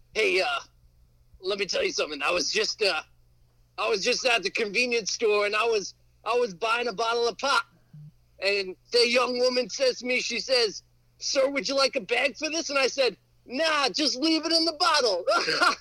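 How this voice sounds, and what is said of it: Imitated old man's voice. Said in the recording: “Are you still impersonating the old man laughing”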